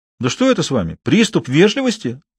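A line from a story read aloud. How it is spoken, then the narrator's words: Exclamation. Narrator (Russian): воскликнул Жозеф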